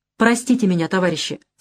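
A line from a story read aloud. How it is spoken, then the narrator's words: Plain. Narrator (Russian): сказал я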